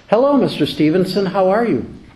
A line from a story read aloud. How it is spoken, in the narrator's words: said in a pleasant tone